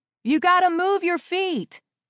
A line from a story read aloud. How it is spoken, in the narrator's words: I shouted up at the man